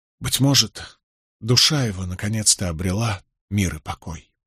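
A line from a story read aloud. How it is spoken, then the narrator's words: Barely audible. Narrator (Russian): Наконец Нетти произнес едва слышно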